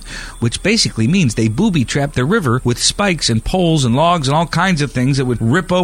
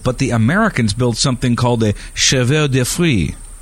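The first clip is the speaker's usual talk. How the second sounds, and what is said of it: Put-on French accent. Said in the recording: “You like my French accent?”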